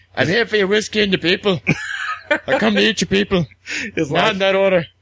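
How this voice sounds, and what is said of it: Poor put-on Scottish accent. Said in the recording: “this is my best Scottish accent that I have ... I don't think he's that Scottish ... shit Scottish”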